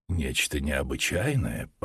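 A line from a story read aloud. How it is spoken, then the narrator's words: Muttering. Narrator (Russian): пробормотал я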